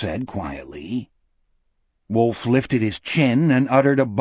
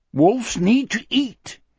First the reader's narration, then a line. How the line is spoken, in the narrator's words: he said, and his voice too was joyous